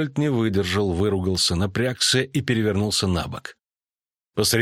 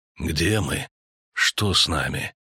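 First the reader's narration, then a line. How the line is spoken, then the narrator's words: Quiet moan. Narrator (Russian): Лютик тихо застонал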